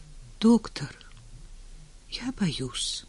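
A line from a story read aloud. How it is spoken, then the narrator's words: Old man whispering. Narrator (Russian): шепнул старик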